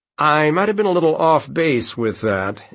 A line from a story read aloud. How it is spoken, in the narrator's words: Elliot said gloomily